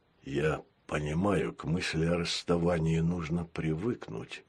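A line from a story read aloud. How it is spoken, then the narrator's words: Gentle cyborg voice. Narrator (Russian): мягко сказал киборг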